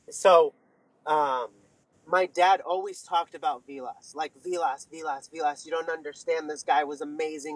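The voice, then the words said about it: Choked-up, emotional voice. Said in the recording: “all choked up”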